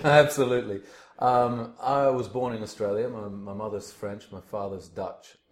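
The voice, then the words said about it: Australian accent, somewhat English-sounding. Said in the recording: “I'm Australian. The accent sort of gives it away, but apparently people think I've got a English accent now”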